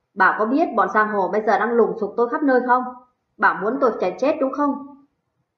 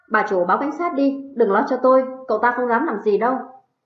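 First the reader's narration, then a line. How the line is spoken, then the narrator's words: Fearless. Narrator (Vietnamese): Cường không hề sợ hãi nói với bà Tuyết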